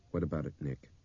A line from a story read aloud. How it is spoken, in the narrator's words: Brian said softly